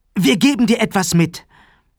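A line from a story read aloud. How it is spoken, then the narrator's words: Calling out. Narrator (German): rief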